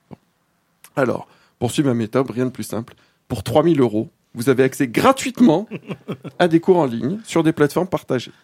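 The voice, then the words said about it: Put-on Bulgarian accent in French. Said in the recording (French): “mon accent bulgare”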